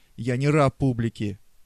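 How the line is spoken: Annoyed shout. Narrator (Russian): с досадой подумал и крикнул

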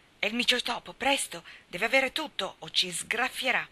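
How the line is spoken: Exclaimed. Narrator (Italian): Demi esclamò

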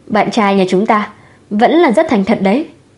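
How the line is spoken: Laughing, teasing. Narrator (Vietnamese): Khương Vũ bật cười

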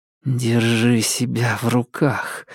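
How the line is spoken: Through gritted teeth. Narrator (Russian): сквозь зубы процедила Макс

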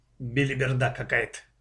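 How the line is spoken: Father's mutter. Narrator (Russian): пробормотал папа

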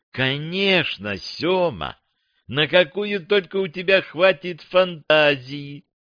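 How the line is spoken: Purring, experienced madam tone. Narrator (Russian): промурлыкала буханка тоном опытной мадам

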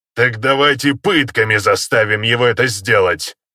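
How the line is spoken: Contemptuous orc snort. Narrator (Russian): презрительно фыркнул орк

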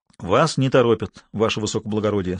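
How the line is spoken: Calm. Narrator (Russian): спокойно сказал Азаров

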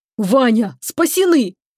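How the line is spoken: Incredulous exclamation. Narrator (Russian): не веря себе, воскликнул Чебуран

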